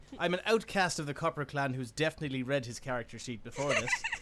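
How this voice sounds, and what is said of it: Put-on Irish accent. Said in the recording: “I think I'm going to settle on doing an Irish accent for wrench”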